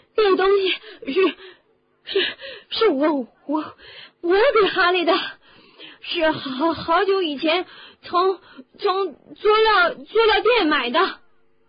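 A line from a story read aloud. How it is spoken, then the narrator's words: Breathless, gasping. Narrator (Chinese): 卢恩 完全喘不上气来 试图说话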